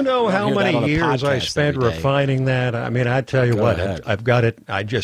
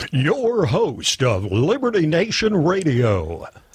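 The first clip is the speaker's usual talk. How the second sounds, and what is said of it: Polished radio announcer voice. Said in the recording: “The full radio voice for that ... That's a big bucks presentation voice”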